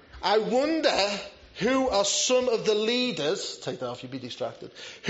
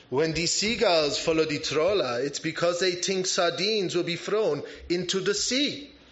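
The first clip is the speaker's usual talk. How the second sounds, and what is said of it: Put-on French accent. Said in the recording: “That's quite a good French accent, isn't it?”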